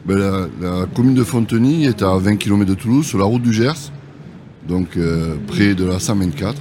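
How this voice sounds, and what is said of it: Sing-song southwestern French accent. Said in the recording (French): “votre accent chantant qu'on est ravis d'entendre”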